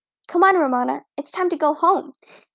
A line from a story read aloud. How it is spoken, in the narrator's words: called to her little sister